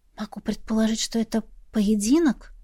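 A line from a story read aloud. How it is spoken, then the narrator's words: Quiet reply. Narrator (Russian): тихо отозвалась я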